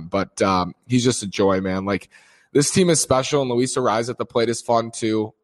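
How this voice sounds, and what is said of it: Strained voice from screaming. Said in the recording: “you can kind of hear that in my strained voice right now, how I was screaming”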